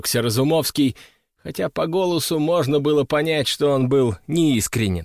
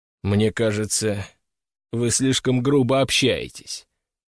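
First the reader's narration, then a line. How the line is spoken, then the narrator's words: Amused snort. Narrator (Russian): хмыкнул Борис Геннадьевич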